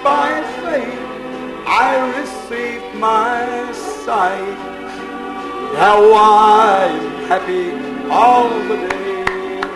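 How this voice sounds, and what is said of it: Hoarse singing voice. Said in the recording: “I'm hoarse tonight.”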